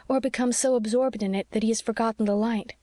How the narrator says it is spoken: she said anxiously

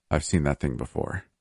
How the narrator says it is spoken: Phoenix muttered, frowning thoughtfully

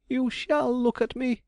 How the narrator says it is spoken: he cried

